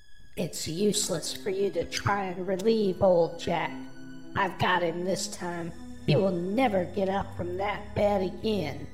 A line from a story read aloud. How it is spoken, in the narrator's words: the witch cackled with glee, saying